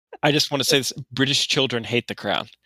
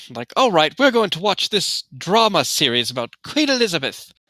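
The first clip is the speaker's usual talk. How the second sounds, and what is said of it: Good put-on British accent. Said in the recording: “That's a pretty good British accent... That's pretty well done.”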